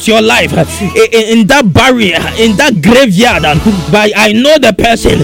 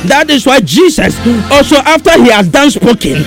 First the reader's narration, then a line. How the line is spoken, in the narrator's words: he cried out